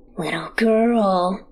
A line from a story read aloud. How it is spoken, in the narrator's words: he rasps